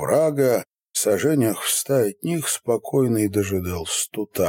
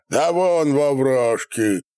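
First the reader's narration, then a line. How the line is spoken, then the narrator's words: Shout. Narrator (Russian): крикнул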